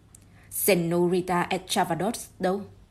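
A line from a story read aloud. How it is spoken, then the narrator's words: Sharp. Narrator (Vietnamese): Hercule Poirot đã gay gắt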